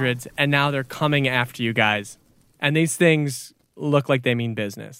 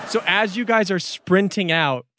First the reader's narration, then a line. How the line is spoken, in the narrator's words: Chip shouted those orders